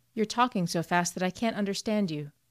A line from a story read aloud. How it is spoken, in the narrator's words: interrupted Dick calmly